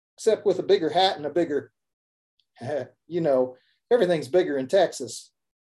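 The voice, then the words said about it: Put-on Texas accent. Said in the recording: “doing a Texas accent like that... It was a good effort, that one”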